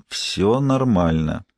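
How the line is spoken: Slow whisper. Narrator (Russian): медленно прошептал

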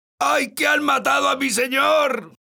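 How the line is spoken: Shouting. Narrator (Spanish): gritaba

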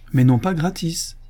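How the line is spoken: Exclaiming. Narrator (French): s'écria Madame Grobara

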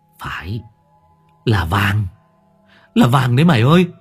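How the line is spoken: Smiling. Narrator (Vietnamese): Đông mỉm cười

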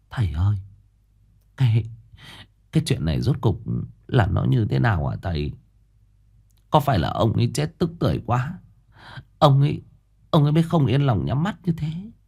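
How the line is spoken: Old woman asking timidly, softly. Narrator (Vietnamese): bà khẽ rụt rè hỏi

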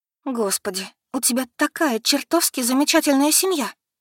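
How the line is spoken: Sobbing, broken off. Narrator (Russian): Она не смогла произнести фразу до конца и всхлипнула

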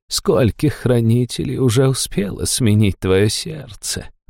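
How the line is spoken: Purring. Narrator (Russian): промурлыкала она

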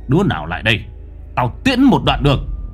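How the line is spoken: Menacing growl. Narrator (Vietnamese): Lão Năm gằn giọng

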